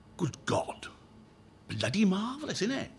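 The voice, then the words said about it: Put-on broad Welsh accent. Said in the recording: “his broad Welsh, apologies for the Welsh accent”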